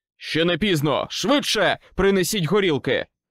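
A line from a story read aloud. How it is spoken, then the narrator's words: Shouted. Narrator (Ukrainian): крикнув мені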